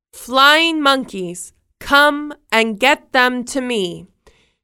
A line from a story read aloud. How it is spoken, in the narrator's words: shouted